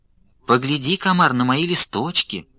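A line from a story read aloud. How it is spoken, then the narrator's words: Sugary little voice. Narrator (Russian): Говорит травинка приторным голоском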